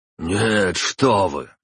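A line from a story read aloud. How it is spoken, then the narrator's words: Quick exclamation. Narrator (Russian): тут же воскликнул Харитонов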